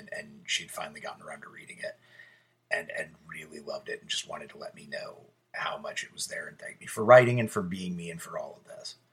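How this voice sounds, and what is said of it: Choked up, emotional voice. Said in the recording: “if I sound like I'm getting a little choked up, it's because I am.”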